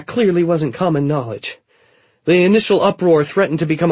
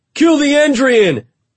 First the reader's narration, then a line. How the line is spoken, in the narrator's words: someone cried